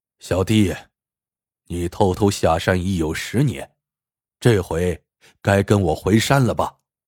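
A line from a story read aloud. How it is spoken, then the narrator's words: Sighing. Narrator (Chinese): 那客人叹道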